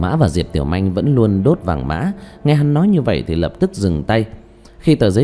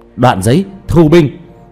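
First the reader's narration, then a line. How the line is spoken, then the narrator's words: Loud call outward. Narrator (Vietnamese): Diệp Thiếu Dương lớn tiếng kêu lên ra bên ngoài cốc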